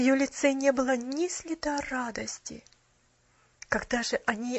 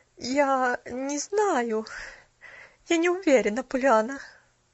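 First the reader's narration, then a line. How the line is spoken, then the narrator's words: Dejected, indifferent voice. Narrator (Russian): Упавшим, безразличным голосом произнесла миссис Керю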